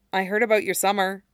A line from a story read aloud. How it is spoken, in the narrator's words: Harry said quietly